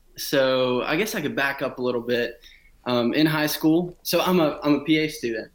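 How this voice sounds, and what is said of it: South Georgia Southern US accent. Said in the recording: “I'm from a small town in Middle Georgia. Didn't realize I had the accent that comes with South Georgia until I got to school and everybody called me out about it.”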